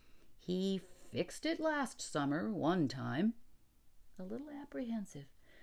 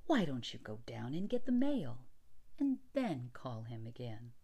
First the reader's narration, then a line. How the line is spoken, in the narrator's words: Allison said soothingly